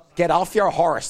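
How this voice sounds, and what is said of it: John Wayne impression, Northern Irish accent. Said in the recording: “your best John Wayne impression ... Kind of with a Northern Ireland accent there ... Northern Ireland accent added in just for fun.”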